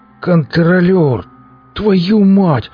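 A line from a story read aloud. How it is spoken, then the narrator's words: Horrified wheeze. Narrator (Russian): С неподдельным ужасом захрипел он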